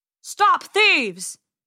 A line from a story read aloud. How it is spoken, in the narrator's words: he yelled